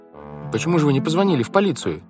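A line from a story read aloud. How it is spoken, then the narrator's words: Plain. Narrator (Russian): спросила Вайолет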